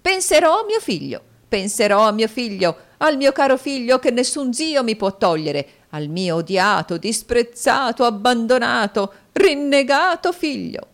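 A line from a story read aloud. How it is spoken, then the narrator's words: Shrieked. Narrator (Italian): strillò la signora Kenwigs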